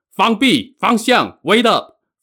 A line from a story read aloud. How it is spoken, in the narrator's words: Flying Tiger shouted